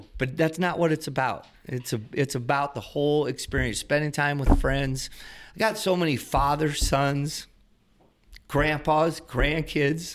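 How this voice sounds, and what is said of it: Emotional, choked-up voice. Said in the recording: “Are you getting emotional? ... A little bit. ... Are you getting emotional? ... I'm sorry. ... it's kind of cool that you're getting emotional”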